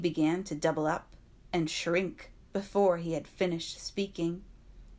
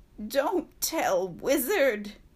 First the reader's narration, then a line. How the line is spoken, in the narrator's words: he whined